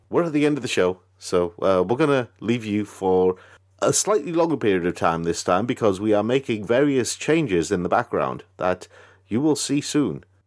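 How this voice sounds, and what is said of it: American TV presenter voice. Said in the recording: “this kind of weird, you know, American TV presenter look on my face when I'm doing this voice”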